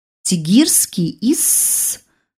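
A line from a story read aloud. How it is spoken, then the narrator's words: Hiss. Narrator (Russian): зашипела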